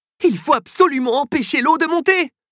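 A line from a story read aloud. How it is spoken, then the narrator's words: Exclaimed. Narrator (French): s'écrie-t-il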